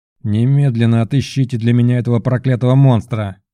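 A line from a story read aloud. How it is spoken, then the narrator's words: Furious growl. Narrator (Russian): зарычал он, ощущая, как его слова отражают его внутреннее бешенство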